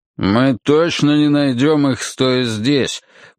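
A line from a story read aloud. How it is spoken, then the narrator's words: Grumbled. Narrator (Russian): буркнул Ройс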